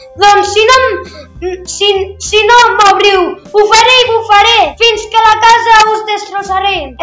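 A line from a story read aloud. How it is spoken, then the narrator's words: Wolf shouting angrily. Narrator (Catalan): El llop, enfadadíssim, els va cridar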